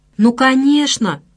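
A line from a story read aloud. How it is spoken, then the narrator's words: Exclamation. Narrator (Russian): воскликнул профессор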